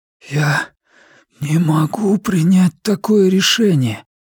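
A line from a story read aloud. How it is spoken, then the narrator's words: Wheezing. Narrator (Russian): просипел я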